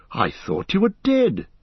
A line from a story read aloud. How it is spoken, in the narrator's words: he cried